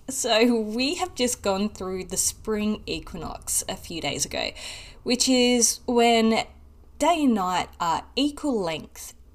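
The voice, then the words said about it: Australian accent. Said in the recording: “I'm in Australia, for those that don't know and couldn't pick up on my accent.”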